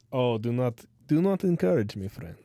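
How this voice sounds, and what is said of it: Bad put-on Russian accent. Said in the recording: “my Russian accent... It's kind of bad... my bad Russian accent... Keep practicing.”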